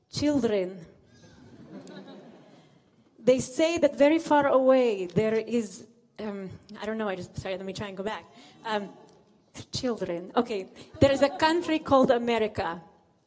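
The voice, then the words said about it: Put-on accent voicing a rabbi. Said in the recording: “I'll ask your forgiveness for my accent”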